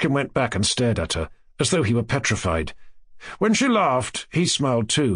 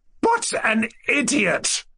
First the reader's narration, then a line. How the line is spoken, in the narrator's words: Nastasia Filipovna cried out, stamping her foot in indignation